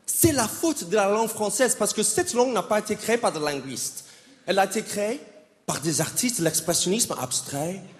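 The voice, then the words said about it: American accent speaking French. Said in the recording (French): “Moi, je suis américain. Ça fait 12 ans que j'habite en France maintenant. Donc, je parle vraiment comme ça, OK? ... C'est mon vrai accent.”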